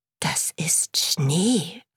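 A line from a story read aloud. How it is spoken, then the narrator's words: Whispered. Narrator (German): flüsterte Mumin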